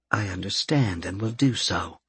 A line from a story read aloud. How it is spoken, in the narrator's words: she whispered